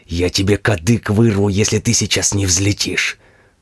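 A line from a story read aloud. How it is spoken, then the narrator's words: Terrifying yell. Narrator (Russian): Страшным голосом орал мой помощник на пилота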